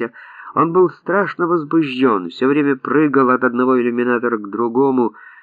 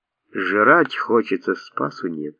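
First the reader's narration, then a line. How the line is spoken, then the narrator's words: Dejected. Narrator (Russian): уныло говорил Арон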